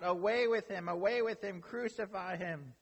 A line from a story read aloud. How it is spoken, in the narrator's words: They cried out